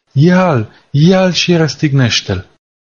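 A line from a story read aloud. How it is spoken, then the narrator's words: Crowd shouting. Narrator (Romanian): i-au strigat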